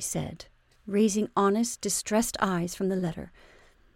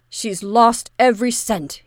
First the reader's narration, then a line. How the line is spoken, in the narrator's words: he said savagely